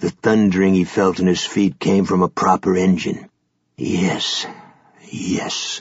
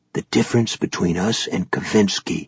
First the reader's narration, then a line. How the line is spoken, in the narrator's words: Ganzi whispered in Ronan's head